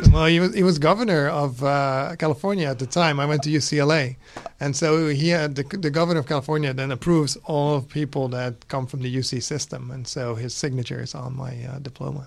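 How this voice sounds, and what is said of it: Dutch accent. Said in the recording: “What's the accent? ... I'm Dutch originally.”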